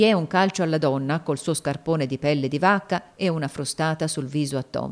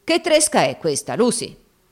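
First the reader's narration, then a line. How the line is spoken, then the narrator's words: Brutal voice. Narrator (Italian): le disse con voce brutale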